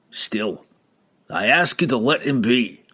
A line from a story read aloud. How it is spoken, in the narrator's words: Brunner growled